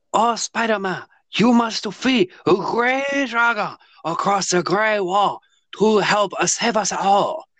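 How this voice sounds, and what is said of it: Exaggerated put-on foreign accent. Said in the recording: “That is accent humor.”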